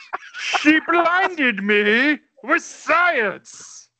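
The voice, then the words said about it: Imitates another person's voice. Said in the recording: “here's another impression that I've done on a pod just for you”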